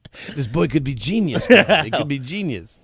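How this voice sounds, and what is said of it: Imitates another person's accent. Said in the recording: “What kind of accent is that? ... That's the way the guy talked. ... I'm familiar with this accent. It's East.”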